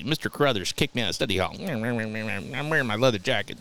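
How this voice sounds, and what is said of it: Imitates another person's voice. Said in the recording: “my Ronda Rousey impression ... It's actually pretty fucking good.”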